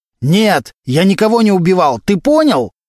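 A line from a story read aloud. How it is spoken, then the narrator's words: Very loud shouting. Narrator (Russian): Валентин настолько громко кричал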